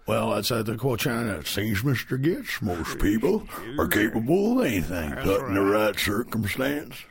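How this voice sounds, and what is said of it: John Huston impression. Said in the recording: “That was a very good accent. ... That was a horrible John Huston.”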